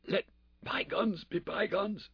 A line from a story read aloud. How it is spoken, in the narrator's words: he whispered